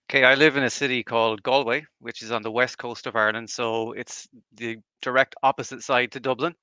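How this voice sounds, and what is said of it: Irish accent. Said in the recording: “I obviously noticed an accent ... born and raised in Ireland, here in Galway”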